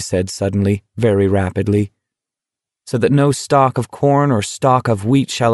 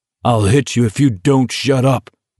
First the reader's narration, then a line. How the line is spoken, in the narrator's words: Abraham bellowed